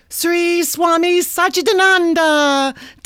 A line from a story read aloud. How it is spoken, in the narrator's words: Destiny shrieks